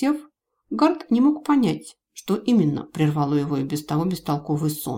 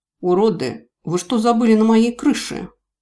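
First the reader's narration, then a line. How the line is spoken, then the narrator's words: Unexpectedly deep bass, dwarf. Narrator (Russian): Карлик ответил неожиданно низким басом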